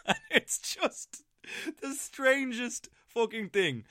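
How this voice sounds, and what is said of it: Usual voice. Nothing is said of it.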